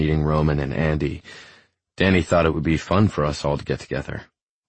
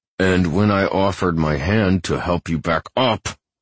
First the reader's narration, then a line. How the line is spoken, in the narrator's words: he snaps through clenched teeth